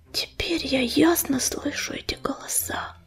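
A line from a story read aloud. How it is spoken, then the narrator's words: Whisper. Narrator (Russian): прошептала она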